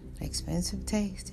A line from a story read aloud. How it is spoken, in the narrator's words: she murmured